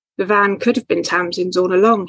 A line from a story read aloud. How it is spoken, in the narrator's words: said